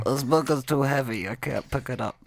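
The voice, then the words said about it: Imitates another person's voice. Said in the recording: “my Ken impersonation”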